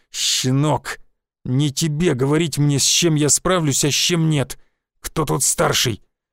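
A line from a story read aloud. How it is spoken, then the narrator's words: Hissed. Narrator (Russian): Прошипел я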